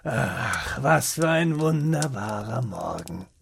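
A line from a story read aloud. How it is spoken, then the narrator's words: Muttering to self. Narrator (German): murmelte zu sich selbst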